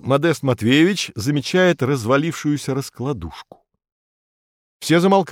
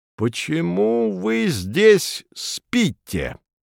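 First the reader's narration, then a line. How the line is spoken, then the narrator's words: Menacing question. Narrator (Russian): Грозно осведомляется Модест Матвеевич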